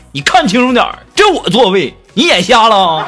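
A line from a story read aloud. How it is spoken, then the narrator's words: Man shouting loudly. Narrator (Chinese): 男士……大声嚷嚷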